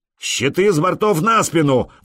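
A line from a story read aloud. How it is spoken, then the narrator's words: Roar. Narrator (Russian): взревел Простен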